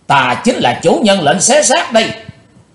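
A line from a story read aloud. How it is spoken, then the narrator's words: Hateful shout. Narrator (Vietnamese): Chàng thét lên giọng quán thù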